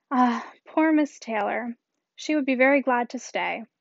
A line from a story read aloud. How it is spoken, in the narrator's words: Woodhouse's giving a gentle sigh and saying